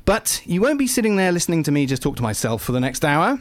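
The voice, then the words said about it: Semi-suave British accent. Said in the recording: “semi suave British accent”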